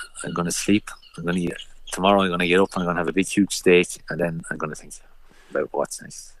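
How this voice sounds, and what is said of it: Irish accent with French influence. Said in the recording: “your accent, it's a lovely mix of your 12 years in France and Kells and County Meath”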